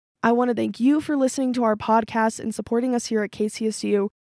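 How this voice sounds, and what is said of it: Slightly off, congested-sounding voice. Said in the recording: “I had a cold this whole time, so my voice sounds a little bit weird”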